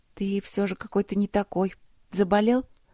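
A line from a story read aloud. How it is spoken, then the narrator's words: Uncertain question. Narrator (Russian): спросила она неуверенно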